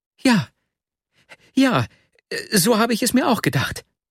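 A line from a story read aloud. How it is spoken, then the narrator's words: Joyful call. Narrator (German): rief Nastjenka, und Freude leuchtete aus ihren Augen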